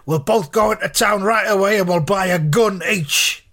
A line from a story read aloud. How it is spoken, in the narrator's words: shouted